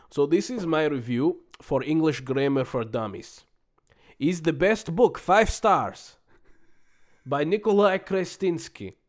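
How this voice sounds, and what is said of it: Put-on Russian accent. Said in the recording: “I can do it in an accent. I'm going to do it in an accent. ... Are you going to do it in Russian? ... Yes”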